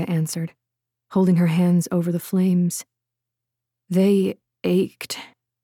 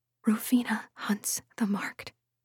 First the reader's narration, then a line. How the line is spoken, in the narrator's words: whispered